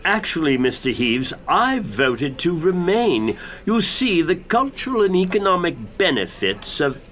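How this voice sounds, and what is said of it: Affected broadcaster-style accent. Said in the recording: “your odd and probably affected broadcastery accent”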